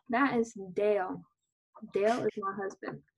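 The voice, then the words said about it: Put-on Southern American accent. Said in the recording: “She doesn't have a southern accent. I just think it makes it funny.”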